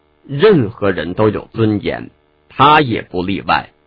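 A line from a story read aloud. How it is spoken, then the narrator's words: Cold, stern voice. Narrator (Chinese): 李清愁脸色一沉，冷声道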